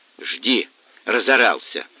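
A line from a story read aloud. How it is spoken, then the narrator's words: Snapping retort. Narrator (Russian): огрызнулась девчонка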